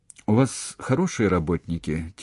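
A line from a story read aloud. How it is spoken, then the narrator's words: Quiet, sad question. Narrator (Russian): тихо и грустно спросил Штуб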